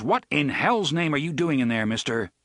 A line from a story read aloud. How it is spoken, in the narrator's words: Out loud, he barked